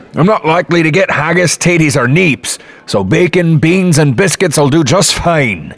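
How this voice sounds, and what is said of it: Scottish brogue accent. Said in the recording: “You're from Scotland. I thought I recognized your accent ... the brogue”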